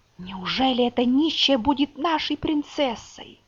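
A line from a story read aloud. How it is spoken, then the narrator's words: Whispering among themselves. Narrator (Russian): Они шептали друг другу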